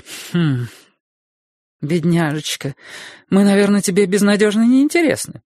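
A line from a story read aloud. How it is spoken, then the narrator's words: Cheerful. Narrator (Russian): бодро сказала миссис Мильдербергер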